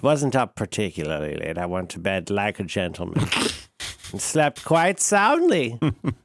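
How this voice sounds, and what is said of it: Peculiar put-on accent. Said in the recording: “I'm going to use this peculiar accent for the rest of the program.”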